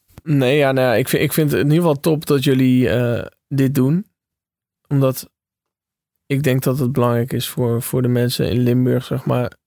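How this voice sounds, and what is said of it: Dutch with a Limburg accent. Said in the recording (Dutch): “hoezo praat je dan met, met zo'n accent ... waarom we dit accent nou doen ... Limburg draag je mee in je hart”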